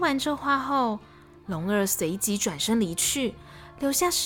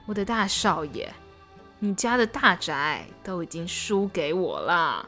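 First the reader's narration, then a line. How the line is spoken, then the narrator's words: Sighing. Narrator (Chinese): 龙二叹了一口气说道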